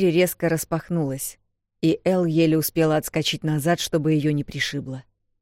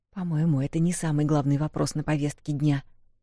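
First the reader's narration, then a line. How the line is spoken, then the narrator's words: Whisper. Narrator (Russian): прошептала Вэл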